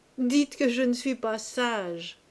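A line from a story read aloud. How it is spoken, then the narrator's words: Laughing exclamation. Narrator (French): s'écriait-il parfois en riant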